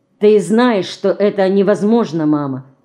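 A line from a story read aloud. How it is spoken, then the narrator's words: Plain. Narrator (Russian): сказал он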